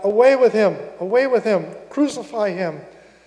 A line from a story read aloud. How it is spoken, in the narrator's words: They cried out